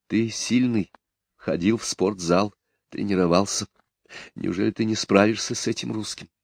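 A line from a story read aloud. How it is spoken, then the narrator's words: Close whisper in ear. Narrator (Russian): Рафик, прижимаясь губами к уху мужа, шептала на себя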